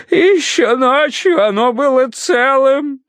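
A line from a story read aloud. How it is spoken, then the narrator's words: Muffled sobbing into handkerchief. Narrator (Russian): всхлипывал он в грязный от сажи платок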